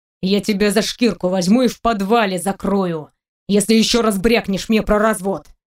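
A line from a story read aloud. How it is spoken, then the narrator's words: Growl. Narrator (Russian): прорычал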